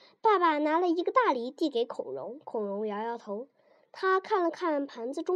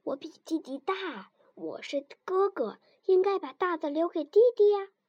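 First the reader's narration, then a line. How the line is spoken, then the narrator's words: Quiet child. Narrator (Chinese): 孔融小声地说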